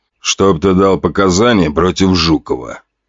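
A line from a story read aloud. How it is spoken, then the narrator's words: Cold demand. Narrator (Russian): холодным голосом потребовал Селедкин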